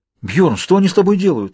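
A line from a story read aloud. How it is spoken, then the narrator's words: Frightened question, priest. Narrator (Russian): испуганно спрашивает священник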